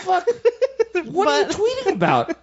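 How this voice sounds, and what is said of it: Raised pitch, incredulous tone. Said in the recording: “My voice went up to elicit a little bit more incredulity.”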